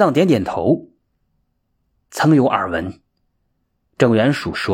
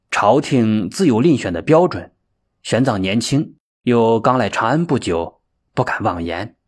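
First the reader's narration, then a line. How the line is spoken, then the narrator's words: Indifferent, flat. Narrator (Chinese): 玄奘似乎有些无动于衷，淡淡的说道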